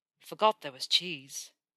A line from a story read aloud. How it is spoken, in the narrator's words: Draco muttered